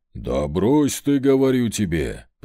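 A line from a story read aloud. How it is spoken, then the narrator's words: Deep bass voice. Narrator (Russian): пробасил князь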